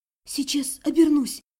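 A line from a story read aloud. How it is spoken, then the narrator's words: Sobbing whisper. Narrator (Russian): кажется, уже всхлипывая, прошептала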